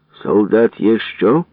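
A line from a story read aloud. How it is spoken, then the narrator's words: Stern question. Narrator (Ukrainian): суворо питав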